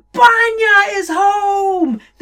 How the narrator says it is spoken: shouted

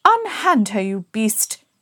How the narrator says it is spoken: exclaimed Dilly

